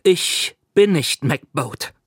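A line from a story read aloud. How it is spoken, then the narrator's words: Slow speech. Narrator (German): sagte langsam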